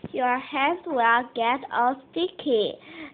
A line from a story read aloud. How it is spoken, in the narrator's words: said Mom